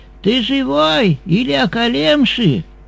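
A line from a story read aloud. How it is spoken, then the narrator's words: Shouted. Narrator (Russian): он закричал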